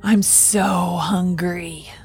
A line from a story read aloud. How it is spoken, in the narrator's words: she hissed